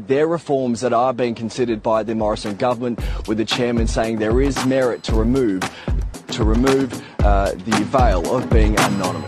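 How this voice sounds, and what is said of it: Australian accent, a bit hard to follow. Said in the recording (Spanish): “está la televisión australiana, se nota un poco en el acento, un poquito más difícil de pillar”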